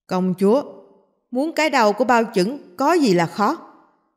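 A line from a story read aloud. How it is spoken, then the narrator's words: Raised, bold voice. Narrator (Vietnamese): Bao đại nhân cao giọng nói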